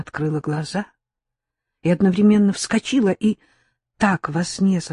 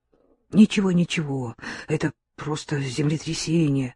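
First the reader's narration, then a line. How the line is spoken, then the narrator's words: Soothing mutter. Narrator (Russian): бормотал дядя Миша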